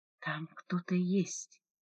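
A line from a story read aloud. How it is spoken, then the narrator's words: Whispered. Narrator (Russian): прошептала Диона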